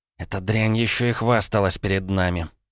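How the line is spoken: Said through gritted teeth. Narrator (Russian): процедила Маша

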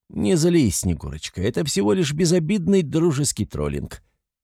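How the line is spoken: Conciliatory tone. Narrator (Russian): говорю примирительным тоном

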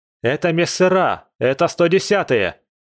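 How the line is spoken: Shouting over radio. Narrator (Russian): Зажав ларингофон и закричал я в эфир

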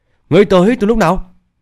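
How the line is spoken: Shocked cry. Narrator (Vietnamese): Tên to con dữ tợn khó tin, cả kinh kêu lên

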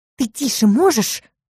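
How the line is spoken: Growl. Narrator (Russian): рыкнула

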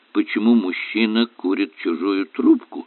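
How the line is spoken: Quiet whisper. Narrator (Russian): тихо шепнул Эллери Айшему

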